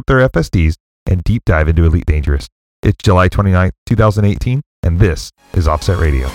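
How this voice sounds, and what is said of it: Announcer-style radio voice. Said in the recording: “I really liked your radio voice there. That was perfect,”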